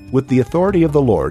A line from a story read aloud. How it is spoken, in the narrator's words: he cried out against the altar